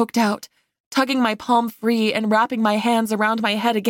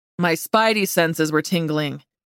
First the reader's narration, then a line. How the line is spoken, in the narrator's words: he said, chuckling